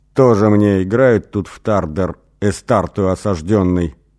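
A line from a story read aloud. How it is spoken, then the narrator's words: Muttered through clenched teeth. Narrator (Russian): процедил сквозь зубы Эсмар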